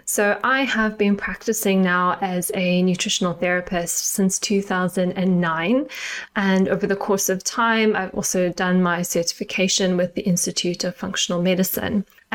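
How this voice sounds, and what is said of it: Slight South African accent. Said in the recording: “if you can hear a little tinge of my accent, I am South African”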